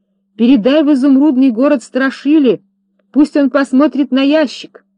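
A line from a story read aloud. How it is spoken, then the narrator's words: Shouted. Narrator (Russian): закричал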